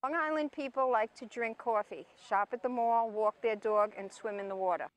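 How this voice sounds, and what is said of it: New York Northeastern accent. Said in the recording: “I love the New York accent ... The Northeastern accent”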